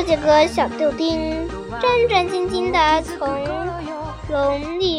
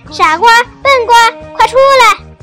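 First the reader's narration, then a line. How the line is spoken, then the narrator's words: Gleeful shout. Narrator (Chinese): 马戏班班主眉飞色舞地说 大声叫了一声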